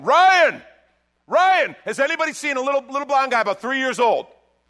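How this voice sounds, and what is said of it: Loud yelling. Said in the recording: “Now I'm yelling. ... I can be loud”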